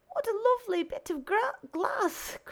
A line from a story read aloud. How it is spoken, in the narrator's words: cried the little girl